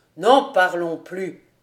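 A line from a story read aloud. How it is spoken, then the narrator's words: Cheerful exclamation. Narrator (French): s'écria gaiement le capitaine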